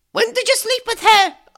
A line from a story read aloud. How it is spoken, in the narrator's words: I screamed